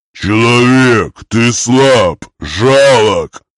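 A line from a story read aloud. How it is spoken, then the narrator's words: Orc's growl. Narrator (Russian): рыкнул орк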